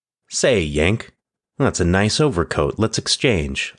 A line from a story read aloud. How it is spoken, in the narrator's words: One of the enemy would exclaim